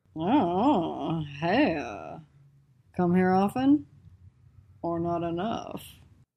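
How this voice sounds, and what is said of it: Crooner-style singer voice. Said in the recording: “her best crooner impression”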